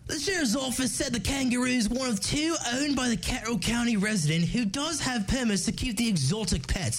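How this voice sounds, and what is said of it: Put-on Australian accent. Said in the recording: “I gotta say this one in an Australian accent.”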